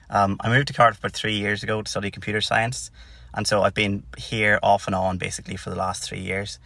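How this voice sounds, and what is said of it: Northern Irish Tyrone accent. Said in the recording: “as you can probably guess by the accent, I'm not from Cardiff or Wales. I'm from Tyrone originally”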